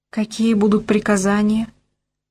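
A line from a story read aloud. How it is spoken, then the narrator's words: Sobbing question. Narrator (Russian): спросила девушка, всхлипывая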